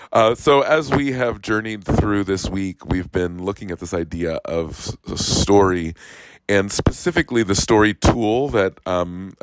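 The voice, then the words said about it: Voice affected by illness. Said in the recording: “both COVID and lots of other stuff ... I've heard of lots and lots of people who are sick ... while this one's not fun ... I will apologize for what my voice sounds like”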